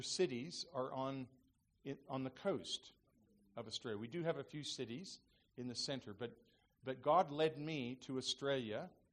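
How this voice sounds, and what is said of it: Non-Australian accent. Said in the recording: “my accent, I don't have a true Australian accent”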